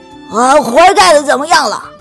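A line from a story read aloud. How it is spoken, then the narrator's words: Loud shouting. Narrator (Chinese): 农夫嚷嚷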